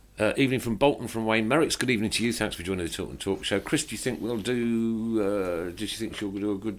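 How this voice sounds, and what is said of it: Usual voice. Nothing is said of it.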